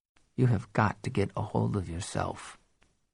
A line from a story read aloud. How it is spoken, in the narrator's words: I said softly